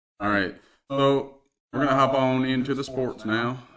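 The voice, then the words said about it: Put-on Southern accent. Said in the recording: “I don't know why I went with the Southern accent there”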